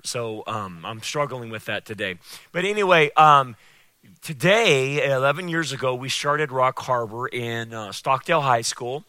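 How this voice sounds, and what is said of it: Slightly hoarse voice. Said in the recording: “I'm a little hoarse today. My allergies are killing me ... sometimes my voice goes because of the air”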